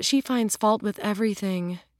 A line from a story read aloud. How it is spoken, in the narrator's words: Julia sighed